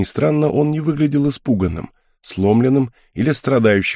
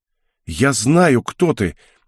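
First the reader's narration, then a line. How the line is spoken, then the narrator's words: Sudden young man's exclamation. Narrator (Russian): неожиданно воскликнул юноша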